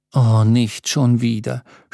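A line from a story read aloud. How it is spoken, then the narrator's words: Groaning. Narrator (German): stöhnte Nilette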